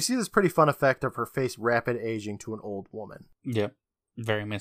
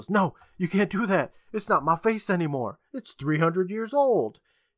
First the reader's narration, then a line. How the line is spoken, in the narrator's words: she screams